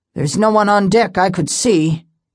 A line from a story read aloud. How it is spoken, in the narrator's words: he said gruffly